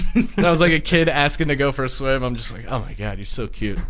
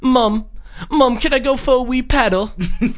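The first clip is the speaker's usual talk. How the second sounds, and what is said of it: Imitates a child's local accent. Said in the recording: “just hearing, like, kids with accents. It's so funny.”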